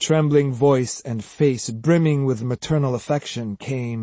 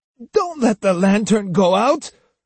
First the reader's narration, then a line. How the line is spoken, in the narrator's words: snapped Osugi